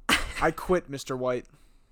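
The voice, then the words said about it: Imitates another person's voice. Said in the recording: “my Jimmy impression”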